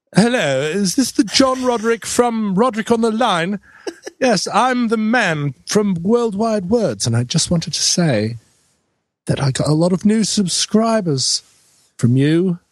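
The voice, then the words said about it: High-pitched English accent impression. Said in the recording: “I had a high accent. ... I think you moved to somewhere south of London, maybe.”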